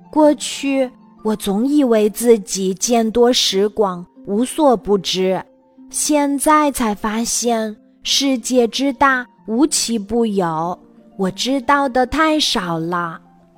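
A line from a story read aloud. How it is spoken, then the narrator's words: Sighing in wonder. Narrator (Chinese): 他感叹地说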